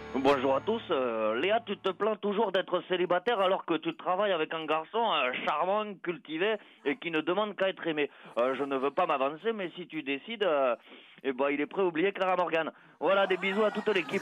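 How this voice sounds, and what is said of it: Bad put-on southern French accent. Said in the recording (French): “C'est quoi cet accent du midi pourri ?”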